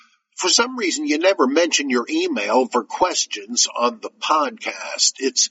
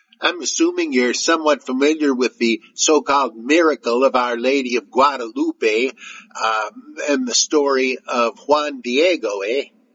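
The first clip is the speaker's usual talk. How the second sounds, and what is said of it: Exaggerated Canadian accent. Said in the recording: “He requests my best Canada hoser accent.”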